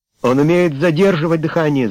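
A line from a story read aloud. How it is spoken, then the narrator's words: Shouted. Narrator (Russian): закричал Эллиот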